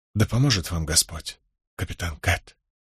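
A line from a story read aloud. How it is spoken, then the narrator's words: Whispered. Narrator (Russian): прошептала стоявшая рядом со мной Лис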